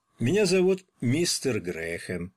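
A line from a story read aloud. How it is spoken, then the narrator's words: Calm old man. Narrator (Russian): спокойно закончил за него старик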